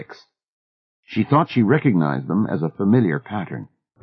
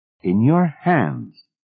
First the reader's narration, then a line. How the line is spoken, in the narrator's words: Miss Fellows said again, firmly